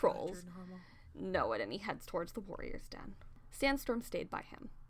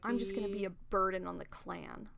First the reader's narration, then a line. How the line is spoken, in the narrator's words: Longtail growled